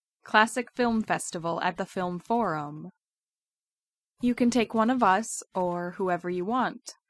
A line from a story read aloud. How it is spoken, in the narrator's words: Natasha says